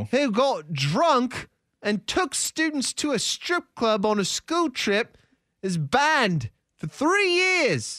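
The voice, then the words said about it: Bad put-on British accent. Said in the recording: “Hate the accent. ... That is terrible. I mean, you're doing such a terrible job with it. It's awful.”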